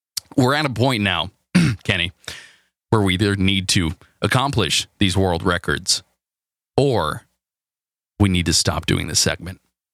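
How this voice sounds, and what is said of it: Strained, hoarse voice. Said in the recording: “I'm losing my voice now.”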